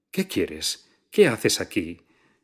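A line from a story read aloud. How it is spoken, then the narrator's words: Nervous exclamation. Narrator (Spanish): exclamó con nerviosismo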